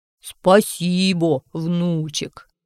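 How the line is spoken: Deep bass voice. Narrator (Russian): сказал Фитюлька басом

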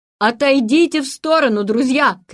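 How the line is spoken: Shouting. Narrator (Russian): крикнул

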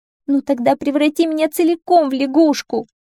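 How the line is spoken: Sobbing princess. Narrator (Russian): разрыдалась принцесса

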